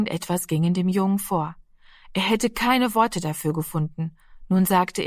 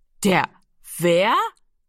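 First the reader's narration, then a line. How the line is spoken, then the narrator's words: Loud laugh. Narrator (German): Giro lachte laut auf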